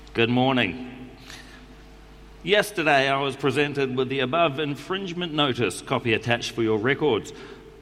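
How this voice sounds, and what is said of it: New Zealand accent. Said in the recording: “I'm going to do it in the New Zealand accent”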